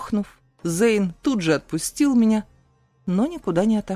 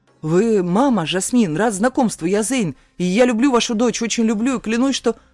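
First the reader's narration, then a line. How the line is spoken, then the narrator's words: Rapid chatter. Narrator (Russian): затараторил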